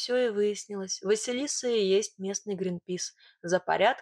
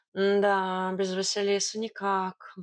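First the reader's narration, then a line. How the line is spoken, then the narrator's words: Sigh. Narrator (Russian): вздохнул Варфоломей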